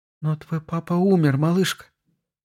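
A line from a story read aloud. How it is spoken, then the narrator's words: Weak voice. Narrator (Russian): слабым голосом говорила Марина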